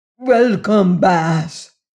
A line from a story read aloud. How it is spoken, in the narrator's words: he cried in rapture at the sight of Leonard